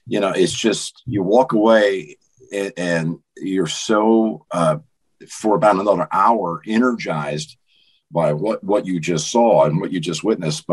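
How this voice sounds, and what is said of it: Slightly raspy voice. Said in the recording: “my voice is still a little bit raspy.”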